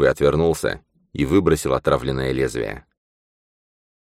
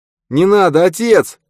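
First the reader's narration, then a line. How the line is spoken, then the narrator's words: Pained shout. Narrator (Russian): прокричал с болью в голосе Нат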